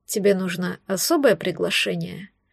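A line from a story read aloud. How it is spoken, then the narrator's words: Lazy question. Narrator (Russian): Лениво спросил он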